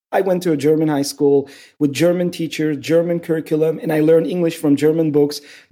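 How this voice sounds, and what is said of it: Mixed Turkish and European accent. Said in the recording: “I have this crazy accent. And it's not just Turkish, all these other languages mix in.”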